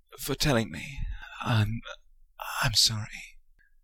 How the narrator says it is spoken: his voice cracked badly

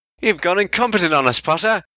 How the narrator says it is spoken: Ron laughed at him

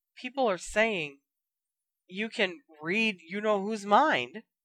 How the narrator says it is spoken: said Dean timidly

